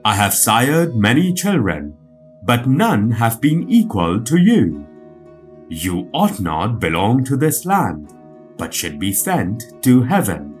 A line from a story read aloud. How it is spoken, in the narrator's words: Izanagi exclaimed